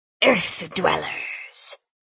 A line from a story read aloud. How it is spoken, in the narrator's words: he hissed in a tiny rat chirpy voice